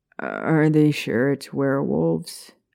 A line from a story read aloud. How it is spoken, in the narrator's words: Peter asked, clearing his throat nervously